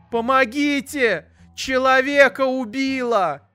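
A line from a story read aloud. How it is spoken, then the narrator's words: Mother's frantic scream. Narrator (Russian): истошно закричала мама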